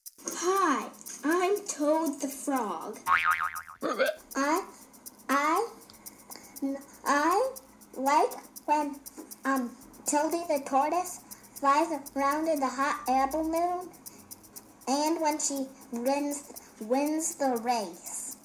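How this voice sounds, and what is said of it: Child doing a froggy character voice. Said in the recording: “That froggy impression”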